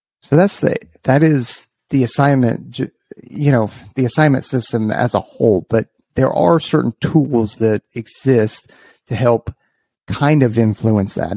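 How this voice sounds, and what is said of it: Hoarse, strained voice. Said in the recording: “man, I'm losing my voice.”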